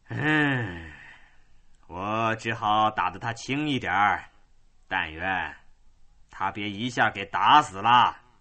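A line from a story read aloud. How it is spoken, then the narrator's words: Careless contemptuous sigh. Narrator (Chinese): 丹尼漫不在意的、轻蔑的，叹了口气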